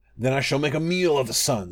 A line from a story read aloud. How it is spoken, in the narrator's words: snarled the wolf